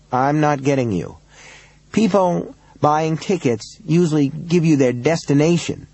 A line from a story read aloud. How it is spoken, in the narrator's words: Robbins said